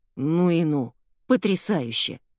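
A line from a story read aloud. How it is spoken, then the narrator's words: Grumbling. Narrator (Russian): проворчал Генри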